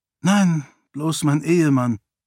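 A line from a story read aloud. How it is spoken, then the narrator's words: Sighed. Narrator (German): seufzte Sarene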